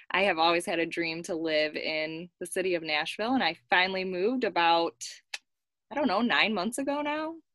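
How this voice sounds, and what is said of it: Michigan accent. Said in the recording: “If you can't tell by my accent, I am from Michigan”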